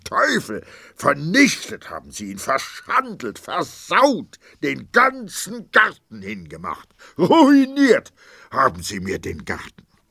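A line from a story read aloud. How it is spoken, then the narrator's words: Shouted. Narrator (German): zog ein grimmiges Gesicht, schrie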